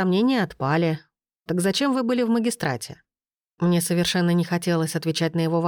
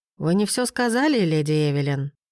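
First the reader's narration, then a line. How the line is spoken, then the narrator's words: Gentle reminder. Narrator (Russian): мягко напомнил Демьен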